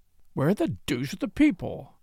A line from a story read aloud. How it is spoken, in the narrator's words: he muttered